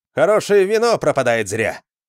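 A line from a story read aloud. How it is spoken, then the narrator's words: Cheerful shout. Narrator (Russian): весело крикнул Джаренс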